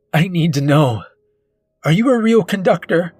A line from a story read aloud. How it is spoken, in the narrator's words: he shouts into my face